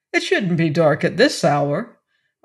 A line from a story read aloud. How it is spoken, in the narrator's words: Arthur exclaimed